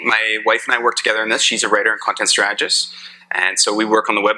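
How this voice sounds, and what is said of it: Somewhat flat Canadian accent. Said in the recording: “I have a somewhat flat Canadian accent”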